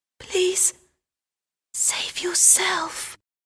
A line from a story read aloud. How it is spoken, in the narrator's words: she whispered